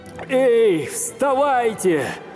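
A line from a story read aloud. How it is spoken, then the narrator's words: Shouted. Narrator (Russian): закричал он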